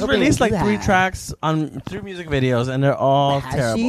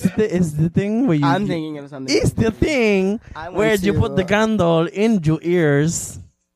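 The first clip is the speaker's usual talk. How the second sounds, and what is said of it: Put-on Puerto Rican accent. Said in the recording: “That's my mom's accent... that's Miss Puerto Rico right now”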